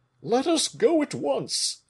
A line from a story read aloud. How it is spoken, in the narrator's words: exclaimed Porthos